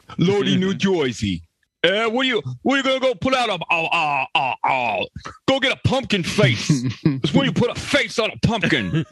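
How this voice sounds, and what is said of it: Imitates a singer's voice. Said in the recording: “best Danzig impersonation”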